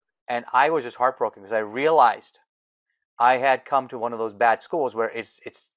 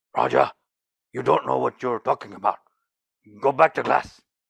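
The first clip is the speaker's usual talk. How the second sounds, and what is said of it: Rough, deep put-on Korean accent. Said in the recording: “he had this very rough, deep Korean accent.”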